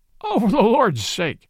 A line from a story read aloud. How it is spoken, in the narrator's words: cried the police detective, laughing